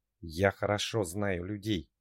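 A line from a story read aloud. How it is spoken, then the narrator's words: Hissed into the ear. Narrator (Russian): прошипели на ухо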